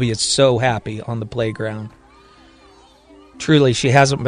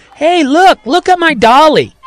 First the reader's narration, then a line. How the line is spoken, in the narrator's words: yelling